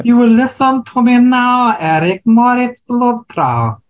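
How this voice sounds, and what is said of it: Weak put-on German accent. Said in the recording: “say it in a German accent? ... Okay, that's better. ... I don't can't really do a German uh, accent”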